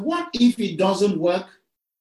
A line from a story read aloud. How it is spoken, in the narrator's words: He raised his voice so that all those standing around could hear